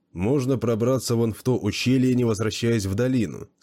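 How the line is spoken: Plain. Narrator (Russian): спросил он

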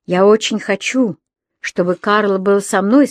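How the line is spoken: Plain. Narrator (Russian): сказал он

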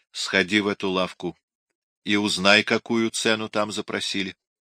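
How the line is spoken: Quiet. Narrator (Russian): тихонько сказал Арджиенто

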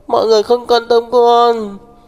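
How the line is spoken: Sobbing. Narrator (Vietnamese): Đường Đường nức nở nói

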